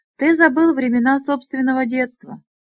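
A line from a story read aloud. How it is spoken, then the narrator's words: Laughing. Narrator (Russian): Флар рассмеялся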